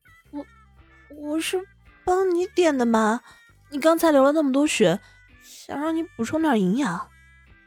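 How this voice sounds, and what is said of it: Quiet, aggrieved soft voice. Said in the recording (Chinese): “委屈着脸， 小声说道”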